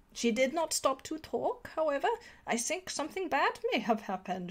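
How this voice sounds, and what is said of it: Deliberately bad put-on accent. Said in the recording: “that bad accent”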